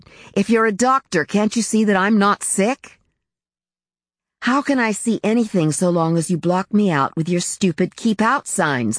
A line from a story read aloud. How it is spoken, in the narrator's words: shouted